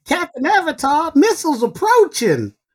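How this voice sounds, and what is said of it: Funny cartoon character voice. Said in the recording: “funny voice? ... I could do it in a Star Blazer's voice.”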